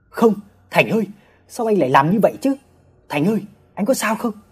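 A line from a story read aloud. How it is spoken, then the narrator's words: Shouted. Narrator (Vietnamese): Ba mình la lên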